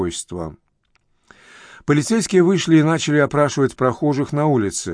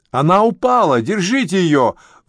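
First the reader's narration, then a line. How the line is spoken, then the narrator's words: Shouted out. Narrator (Russian): выкрикнул Томпсон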